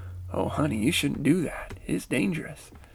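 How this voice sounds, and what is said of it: Put-on Southern accent. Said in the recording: “in my little southern voice”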